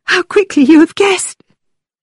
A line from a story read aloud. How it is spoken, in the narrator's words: cried Catherine